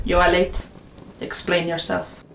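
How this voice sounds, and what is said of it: Clipped noble voice, faint foreign accent. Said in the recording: “Each word was delivered in a clipped, noble voice with the tiniest hint of an unplaceable foreign accent.”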